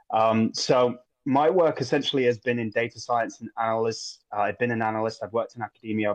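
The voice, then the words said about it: English accent. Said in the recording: “I'm a philosopher born in England, as you might be able to tell from the accent.”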